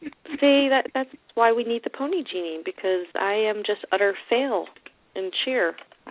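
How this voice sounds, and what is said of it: Usual voice. Nothing is said of it.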